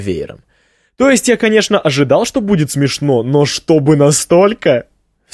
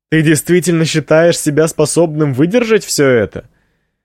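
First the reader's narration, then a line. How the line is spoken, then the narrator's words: Slightly hoarse from laughing. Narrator (Russian): Эшли так много смеялась, что голос у нее теперь немного хриплый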